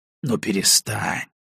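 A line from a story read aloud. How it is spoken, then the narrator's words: Gentle, grandfatherly. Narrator (Russian): Баев заговорил мягко, как мудрый дедушка с неразумным внуком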